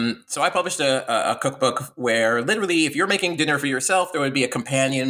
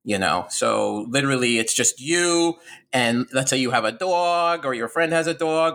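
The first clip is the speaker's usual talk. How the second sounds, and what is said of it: New York accent. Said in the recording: “Why am I talking like a guy from New York all of a sudden?”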